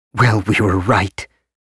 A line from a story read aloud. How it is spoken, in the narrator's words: Loris said bitterly